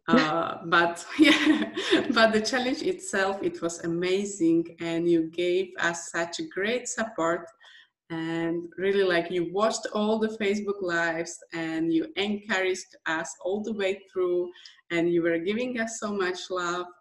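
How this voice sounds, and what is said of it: Speaks with a noticeable foreign accent. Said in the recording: “I have this accent ... I can hear your accent ... you have an accent, but you are so proficient”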